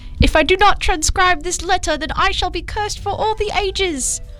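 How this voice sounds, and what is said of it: Attempted British accent. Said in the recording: “This quote was said in a British accent, which I could never recreate as good as it was, but I'll try here.”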